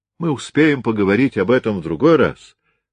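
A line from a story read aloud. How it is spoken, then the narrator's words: Loud voice. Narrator (Russian): сказал громко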